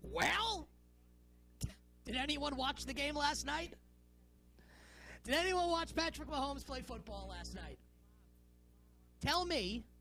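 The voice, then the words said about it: Imitates another person's voice. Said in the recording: “my best Hawk from the Legion of Doom impersonation”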